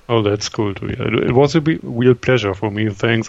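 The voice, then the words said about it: German accent. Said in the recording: “sorry for my German accent”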